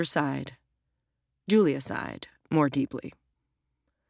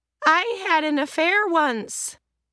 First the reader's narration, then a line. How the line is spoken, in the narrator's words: Estelle said cheerfully from the other end of the apartment, because she'd found another bottle of wine